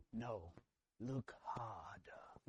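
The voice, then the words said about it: Imitates Rafiki the baboon's voice. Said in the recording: “Exactly like that. That's my best impression that I can do.”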